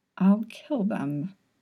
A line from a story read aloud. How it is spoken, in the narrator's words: he muttered